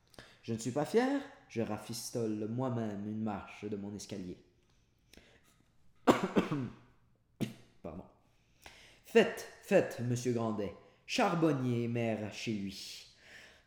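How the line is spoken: Sententious, chuckling. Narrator (French): dit sentencieusement en riant tout seul de son allusion

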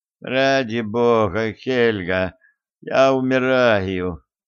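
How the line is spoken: Groaning. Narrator (Russian): простонал Арчер

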